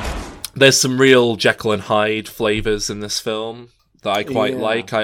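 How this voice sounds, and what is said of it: Usual voice. Nothing is said of it.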